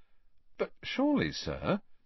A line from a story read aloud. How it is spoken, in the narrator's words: said, keeping his voice as respectful as possible